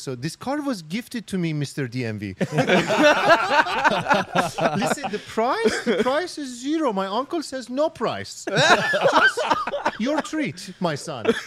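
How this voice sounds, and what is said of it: Put-on accent. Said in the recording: “say this in an accent”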